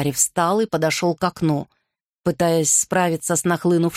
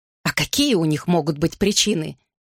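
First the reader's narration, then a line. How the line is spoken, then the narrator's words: Scornful snort. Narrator (Russian): фыркнула Анна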